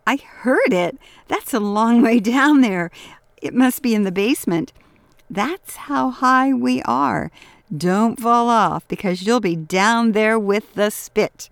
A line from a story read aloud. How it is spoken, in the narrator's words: Mari exclaimed